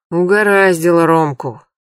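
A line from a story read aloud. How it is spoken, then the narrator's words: Sighing. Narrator (Russian): вздохнул Поливанов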